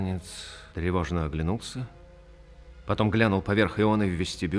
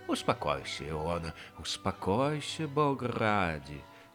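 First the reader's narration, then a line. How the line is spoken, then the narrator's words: Anxious, pitying mutter. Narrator (Russian): бормотал тот, и жалостливо и тревожно у него кривилось лицо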